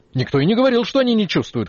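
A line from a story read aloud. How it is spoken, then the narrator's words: Shouted. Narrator (Russian): крикнул Горвиц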